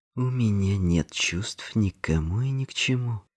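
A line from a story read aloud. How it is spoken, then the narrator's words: Through gritted teeth. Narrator (Russian): процедил Эндрю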